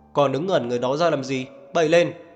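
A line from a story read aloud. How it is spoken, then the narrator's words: Sharp shout. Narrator (Vietnamese): Niềm Ánh Ngạn chỉ quát lên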